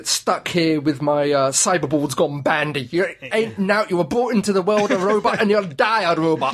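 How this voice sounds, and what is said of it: Northern English accent, Spare Head Three. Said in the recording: “Who speaks in a... Northern accent.”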